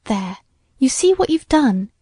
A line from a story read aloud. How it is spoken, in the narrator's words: exclaimed Ruth, who, though only 17, and but 2 years older than her sister, was of a much more sedate disposition